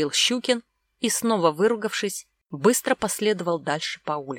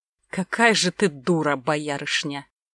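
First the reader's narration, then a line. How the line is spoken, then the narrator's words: Contemptuous, through gritted teeth. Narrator (Russian): процедил Щукин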